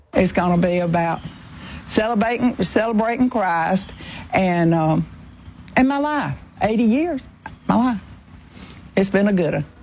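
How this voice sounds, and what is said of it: Strong Georgia Southern accent. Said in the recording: “She has perfect George accent, by the way. ... Just perfect.”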